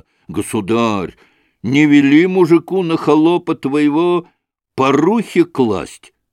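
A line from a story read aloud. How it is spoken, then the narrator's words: Exclamation. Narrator (Russian): воскликнул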